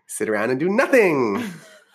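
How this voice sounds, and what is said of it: Valley Girl voice. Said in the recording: “in a Valley Girl voice”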